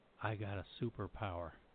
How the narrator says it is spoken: took a deep breath, lowered his voice, and said

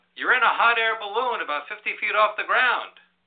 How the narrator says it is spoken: the person yells up

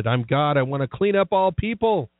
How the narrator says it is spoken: he had shouted and ranted

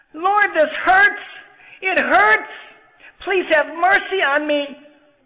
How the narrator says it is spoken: Luis cried louder and shouted

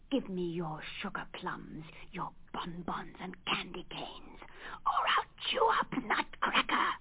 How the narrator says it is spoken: he hissed

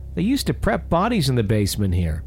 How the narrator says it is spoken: immediately turned to Michael and blurted out

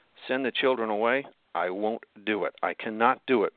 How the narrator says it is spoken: Mean responded firmly

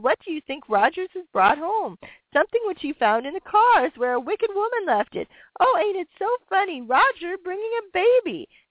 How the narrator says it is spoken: he exclaimed

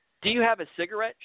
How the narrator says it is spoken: anxiously asked

